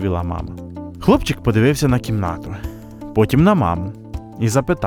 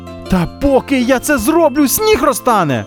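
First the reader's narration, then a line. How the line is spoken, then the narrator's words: Terrified shout. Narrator (Ukrainian): з жахом закричав Яша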